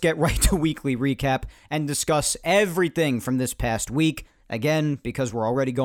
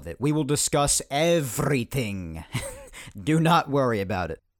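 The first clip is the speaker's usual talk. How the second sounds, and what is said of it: Weird vampire-like put-on accent. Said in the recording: “That was a really weird accent I just did. That sounded like a vampire.”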